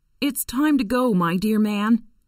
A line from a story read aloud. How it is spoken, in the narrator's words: she said